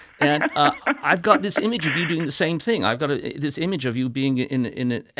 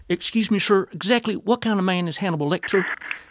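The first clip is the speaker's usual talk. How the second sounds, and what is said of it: Put-on West Virginia accent. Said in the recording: “I'll do my best to feign a West Virginia accent”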